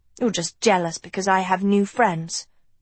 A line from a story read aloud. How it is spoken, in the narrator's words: Dot snapped